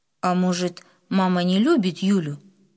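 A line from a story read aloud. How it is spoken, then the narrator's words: Plain. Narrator (Russian): снова спросил папа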